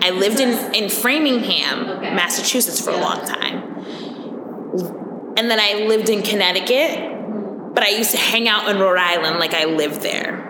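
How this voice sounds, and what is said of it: New England accent. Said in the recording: “I have several accents ... it's just like an all-encompassing New England accent ... Northeast”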